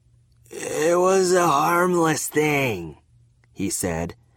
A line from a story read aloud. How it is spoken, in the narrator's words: his speech slurring